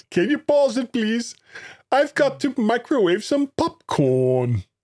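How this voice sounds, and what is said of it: Made-up foreign accent. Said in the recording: “what sort of accent was that ... It's an accent from a land that does not exist.”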